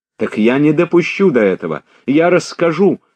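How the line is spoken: Tearful outcry. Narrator (Russian): с прорвавшимися слезами вскрикнула Соня

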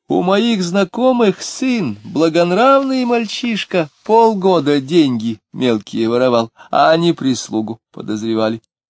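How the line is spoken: After a laughing fit. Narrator (Russian): Дронов, трясясь в припадке смеха, отсмеявшись, сказал

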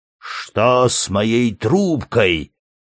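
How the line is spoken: Growling old men. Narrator (Russian): зарычали старички

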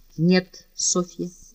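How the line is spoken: Firm and calm. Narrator (Russian): произнес он твердо и спокойно

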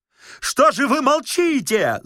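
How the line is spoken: Tremendously loud yell. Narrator (Russian): заорал Бендер с такой силой

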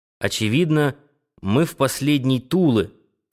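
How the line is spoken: Through clenched teeth. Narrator (Russian): комментировал Бельба сквозь зубы

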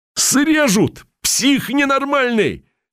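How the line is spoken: Loud yell after shock. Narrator (Russian): заорал Яшка, когда, наконец, пришел в себя

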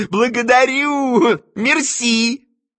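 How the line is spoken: Shout without accent. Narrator (Russian): крикнул Аннушке с площадки, но уже без акцента

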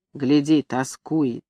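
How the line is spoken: Quiet. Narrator (Russian): Кочегар говорит тихонько

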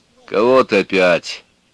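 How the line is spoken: Old woman's deep bass voice. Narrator (Russian): спросила жена Филиппа, высокая старуха с мужским басовитым голосом

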